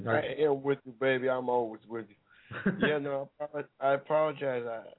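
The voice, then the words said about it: Hoarse, partly lost voice. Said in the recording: “I'm kind of lost my voice a little, so I sound like that mother from the movie Precious.”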